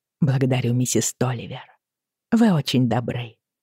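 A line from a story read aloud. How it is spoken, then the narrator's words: Mumbled. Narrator (Russian): пробормотала я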